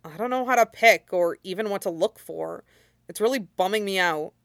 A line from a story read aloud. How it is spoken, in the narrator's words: Shinzo mumbled with his arm outstretched, dark ringed eyes downcast